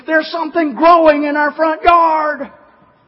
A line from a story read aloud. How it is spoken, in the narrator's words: her father came running into the house screaming